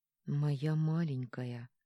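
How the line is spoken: Tender moan. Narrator (Russian): простонал Арман

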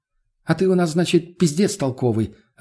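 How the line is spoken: Snapping back. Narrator (Russian): огрызнулась Лена

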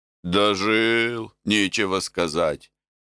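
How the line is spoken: Grumbling. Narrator (Russian): ворчал

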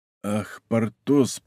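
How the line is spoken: Whisper. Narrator (Russian): прошептал граф де ля Фер

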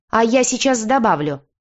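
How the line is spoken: Sudden bark. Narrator (Russian): неожиданно для всех рявкнула наша лапочка-волчица

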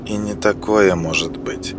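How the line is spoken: Whispered reply. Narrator (Russian): шепотом ответила Мила

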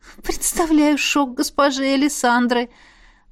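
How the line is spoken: Breathy exhale. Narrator (Russian): выдохнула

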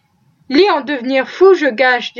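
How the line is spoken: Plain. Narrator (French): dit Andy

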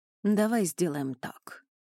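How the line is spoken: Gentle suggestion. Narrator (Russian): мягко предложила она

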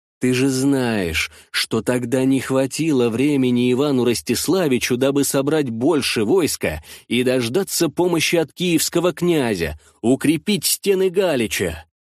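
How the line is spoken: Angry hiss. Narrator (Russian): прошипел Мирон, который и слушать не хотел о поражении

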